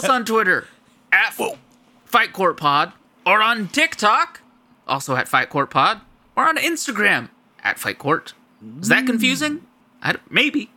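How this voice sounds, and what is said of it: Pro wrestler voice morphing into Kermit. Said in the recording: “I shouldn't do that voice... From like a pro wrestler to Kermit the Frog... Morphed... I slowly became myself. I like deflated.”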